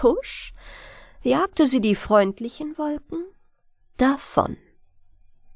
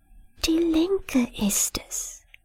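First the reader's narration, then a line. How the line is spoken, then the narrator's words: Whisper. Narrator (German): flüsterte der eine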